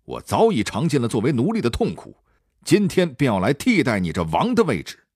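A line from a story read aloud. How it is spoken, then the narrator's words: Angry, loud bellow. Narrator (Chinese): 慕容冲想起多年的耻辱，便大声喝道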